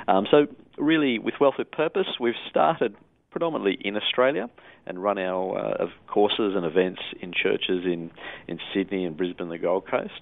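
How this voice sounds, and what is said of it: Australian accent. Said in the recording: “that's where I'm from, as people can tell from the accent ... I spend a lot of time in Australia too”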